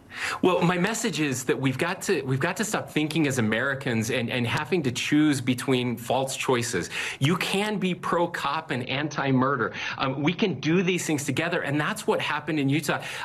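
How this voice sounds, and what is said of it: Condescending kindergarten-teacher voice. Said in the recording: “that voice he does where... His big boy, I'm in charge voice... he sounds like he's teaching primary... substitute kindergarten teacher voice... It's like condescending”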